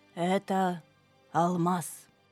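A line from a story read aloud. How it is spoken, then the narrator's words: Plain. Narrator (Russian): сказала фея Бирюлина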